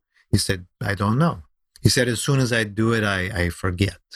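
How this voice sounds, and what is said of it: Put-on vaguely Romanian accent. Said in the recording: “He probably said it with a German accent as opposed to the vaguely Romanian accent I'm using”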